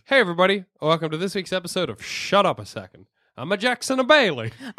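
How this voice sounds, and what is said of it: Put-on Italian accent. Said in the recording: “doing the Italian voice ... we all did the Italian voice”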